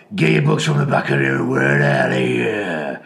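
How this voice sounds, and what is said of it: Impression of a maths teacher. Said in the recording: “do an impression of Mr. Witherden”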